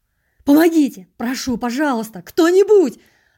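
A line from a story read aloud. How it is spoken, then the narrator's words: Agonized screaming. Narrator (Russian): Орал я так, будто меня самого ломали в тисках или резали ножом по-живому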